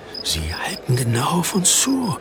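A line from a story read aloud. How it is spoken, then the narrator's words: Whisper. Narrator (German): flüsterte Jakob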